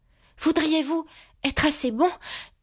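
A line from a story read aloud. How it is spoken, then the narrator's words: Breathless after running. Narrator (French): dit Alice d'une voix haletante après avoir couru encore un peu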